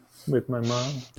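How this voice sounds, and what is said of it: Whispered under breath. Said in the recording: “Why'd you whisper that? Why'd you say that under your breath?”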